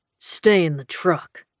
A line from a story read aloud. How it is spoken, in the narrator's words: Knox growled